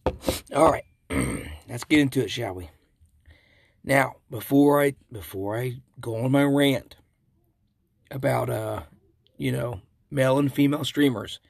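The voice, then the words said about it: Hoarse, nearly lost voice. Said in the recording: “I am getting over a cold ... I have completely almost lost my voice these last 3 days”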